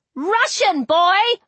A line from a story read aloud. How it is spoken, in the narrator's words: I shouted over the gale